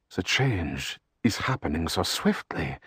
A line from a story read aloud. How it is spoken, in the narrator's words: Liatkin said, his voice tinged with awe